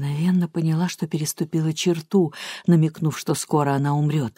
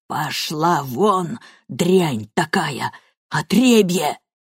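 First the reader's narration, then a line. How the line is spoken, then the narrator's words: Hoarse wheeze. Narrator (Russian): прохрипела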